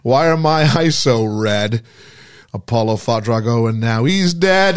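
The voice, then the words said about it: Impression of Rocky's voice. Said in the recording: “That was your impression of Rocky. That was good.”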